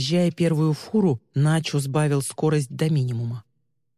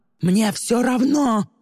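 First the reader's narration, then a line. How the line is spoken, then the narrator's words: Yelled. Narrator (Russian): заорал Тристин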